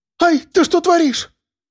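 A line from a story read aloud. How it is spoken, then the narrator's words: Panicked squeal. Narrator (Russian): Взвизгнула Элла в панике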